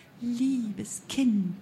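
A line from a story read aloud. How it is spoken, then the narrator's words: Woman's sickly sweet voice. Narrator (German): sagte die Frau mit honigsüßer Stimme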